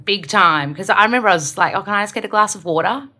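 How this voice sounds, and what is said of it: Strong Australian accent. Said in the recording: “my accent is really strong, Australian, I have to slow down and kind of like – fix my R's.”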